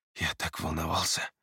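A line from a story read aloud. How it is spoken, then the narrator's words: Whisper. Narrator (Russian): прошептал Эриас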